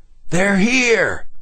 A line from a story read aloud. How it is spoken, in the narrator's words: Wiley shouted